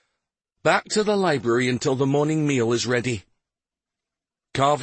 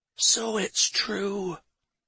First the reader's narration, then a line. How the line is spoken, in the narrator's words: she whispered